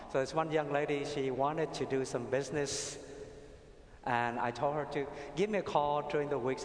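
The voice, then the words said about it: Vietnamese accent in English. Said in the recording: “I'm Vietnamese, I have an accent.”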